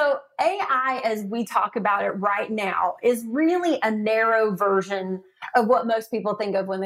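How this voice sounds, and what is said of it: Usual voice. Nothing is said of it.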